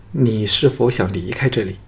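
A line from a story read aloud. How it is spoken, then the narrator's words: Frightened, trembling voice. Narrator (Chinese): 美残娘脸色转白，咬着下唇颤声说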